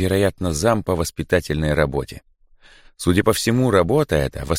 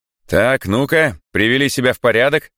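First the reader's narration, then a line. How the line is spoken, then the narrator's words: Stern. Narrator (Russian): строго говорит Андрей Михайлович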